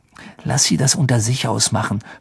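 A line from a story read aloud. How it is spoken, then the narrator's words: Whispering in ear. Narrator (German): flüsterte Ron in Harrys Ohr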